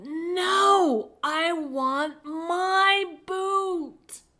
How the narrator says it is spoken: She screamed louder and said

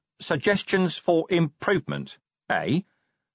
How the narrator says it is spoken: said Vimes cheerfully

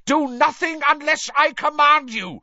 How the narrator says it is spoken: Voldemort shouted to the Death Eaters

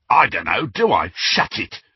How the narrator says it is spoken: snarled an uncouth voice that Harry knew was that of the Carrow brother, Amicus

